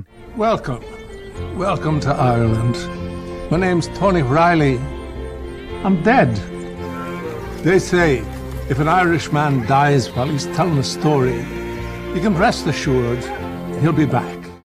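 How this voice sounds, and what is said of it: Christopher Walken's terrible Irish accent. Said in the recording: “a ghost with a terrible Irish accent”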